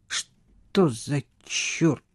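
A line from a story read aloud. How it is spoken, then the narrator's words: Irritated mutter. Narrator (Russian): пробормотал Хьюго в приступе раздражительности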